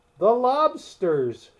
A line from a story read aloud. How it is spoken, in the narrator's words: shouted the Gryphon